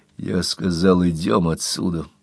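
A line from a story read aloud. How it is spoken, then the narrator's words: Hoarse rasp. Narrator (Russian): прохрипел он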